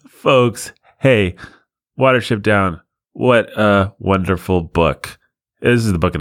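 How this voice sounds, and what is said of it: Usual voice. Nothing is said of it.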